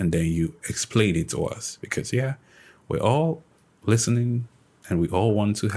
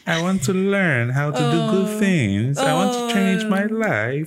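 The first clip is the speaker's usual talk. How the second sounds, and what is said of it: Childlike voice. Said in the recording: “am I talking like a child?”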